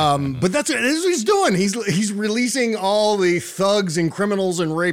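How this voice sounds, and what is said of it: Usual voice. Nothing is said of it.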